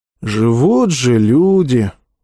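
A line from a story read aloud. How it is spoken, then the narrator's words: Soldier sighing. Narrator (Russian): вздохнул рядовой Аврелий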